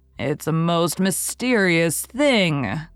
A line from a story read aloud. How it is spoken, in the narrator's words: groaned Marilla